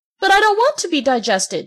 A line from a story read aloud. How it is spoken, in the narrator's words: shouted Pinocchio, starting to sob